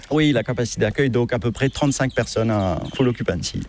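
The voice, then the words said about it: Sing-song Mauritian-accented French. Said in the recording (French): “J'ai malheureusement l'influence mauricienne, anglaise, et puis notre accent mauricien, notre patois revient ... c'est ce français qui est un petit peu ... peut-être un peu chantant ... c'est un français des îles”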